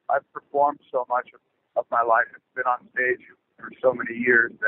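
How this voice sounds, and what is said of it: Tired voice. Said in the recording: “you can probably hear right now my voice is a little tired because we've been rehearsing”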